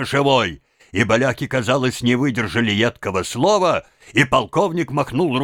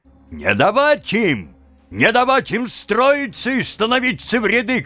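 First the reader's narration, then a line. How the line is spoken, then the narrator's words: Shouted. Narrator (Russian): кричал Кошевой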